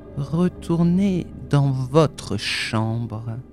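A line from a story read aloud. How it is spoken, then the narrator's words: Slow, smiling. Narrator (French): a-t-il dit lentement et avec ce sourire sur les lèvres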